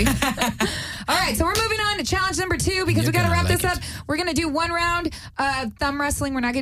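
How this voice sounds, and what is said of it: Usual voice. Nothing is said of it.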